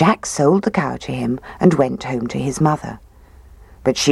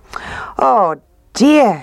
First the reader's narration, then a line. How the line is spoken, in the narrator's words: she cried